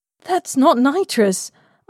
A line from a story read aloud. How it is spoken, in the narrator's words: I gasped